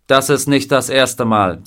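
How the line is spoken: Plain. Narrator (German): sagte der Colonel

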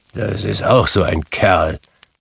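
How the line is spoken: Grumbling. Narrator (German): brummte Scrooge

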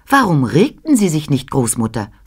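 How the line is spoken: Plain. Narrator (German): fragte ich

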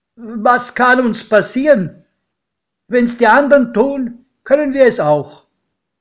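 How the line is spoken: Called out, godfather. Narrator (German): rief mein Pate

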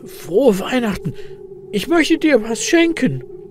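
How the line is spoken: Excited croaking. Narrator (German): krächzt Elias mit aufgeregter Stimme

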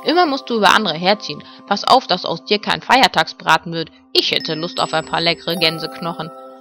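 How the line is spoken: Grumbling mutter. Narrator (German): brummte Ben

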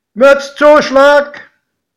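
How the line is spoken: Conductor calling out. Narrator (German): rief der Schaffner

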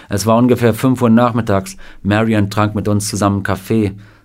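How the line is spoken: Plain. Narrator (German): sagte Sam

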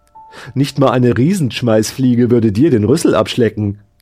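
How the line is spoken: Cheerful. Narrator (German): sagte die Kopie fröhlich

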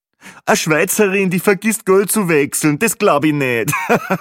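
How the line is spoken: Joking, laughing loudly. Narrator (German): war nun schon der zweite lustige Kommentar von Peppi Gruber, und natürlich lachte er selbst am lautesten über sein fades Witzchen

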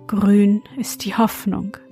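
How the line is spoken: Sighing. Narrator (German): sprach er seufzend

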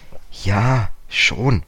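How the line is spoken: Hesitant. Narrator (German): sagte George zögernd

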